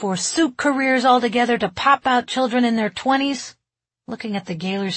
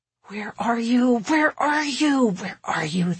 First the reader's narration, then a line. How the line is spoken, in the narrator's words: the young mom muttered